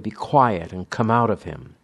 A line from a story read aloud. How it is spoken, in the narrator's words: Jesus said sharply